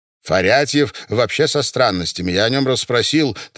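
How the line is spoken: Hurried. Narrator (Russian): торопливо продолжал Миша

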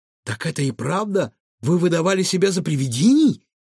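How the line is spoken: Exclaimed. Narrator (Russian): воскликнула Илона

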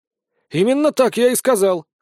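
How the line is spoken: Wry snort. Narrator (Russian): хмыкнул Нейт

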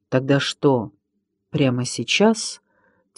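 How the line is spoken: Quiet question. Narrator (Russian): тихо спросил Минька

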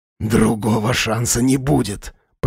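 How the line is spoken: Hissed. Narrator (Russian): прошипел Тимуров

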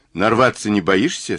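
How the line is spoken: Calm question. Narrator (Russian): спросил Мазур спокойно

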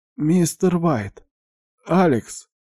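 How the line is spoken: Barely audible. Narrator (Russian): еле слышно прозвучал голос

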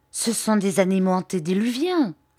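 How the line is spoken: Exclaiming. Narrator (French): s'écria-t-il

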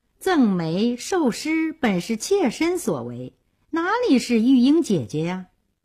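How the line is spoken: Sighing. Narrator (Chinese): 玉珍叹了口气说

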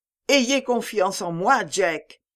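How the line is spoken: Exclaimed. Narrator (French): s'écria-t-elle

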